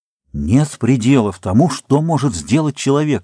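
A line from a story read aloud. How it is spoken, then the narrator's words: Exclamation. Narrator (Russian): воскликнул Чезаре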